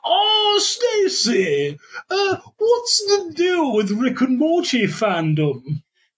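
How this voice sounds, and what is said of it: Imitated voice, sounds like swanky British. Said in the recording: “I'll do my Jerry Seinfeld impression. ... Why is he a swanky British guy now?”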